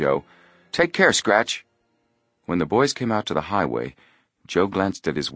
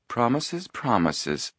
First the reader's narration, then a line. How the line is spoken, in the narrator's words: purred Isla Morton